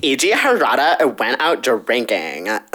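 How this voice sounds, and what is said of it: Put-on Valley Girl accent. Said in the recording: “I definitely said that with a Valley Girl accent.”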